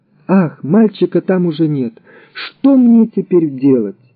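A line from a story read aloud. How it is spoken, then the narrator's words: Sobbing in grief, fear. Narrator (Russian): От горя и страха Рувим плакал и, рыдая, говорил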